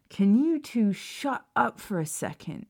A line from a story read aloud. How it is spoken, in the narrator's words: James groaned, looking stressed out